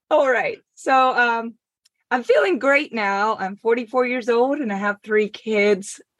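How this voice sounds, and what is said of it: Speaks with a noticeable accent. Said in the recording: “I didn't even know I had an accent. Oh. I've been told that a few times, though.”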